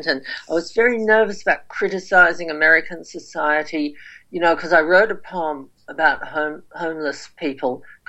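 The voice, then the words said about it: Australian accent. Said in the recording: “I've got an Australian accent”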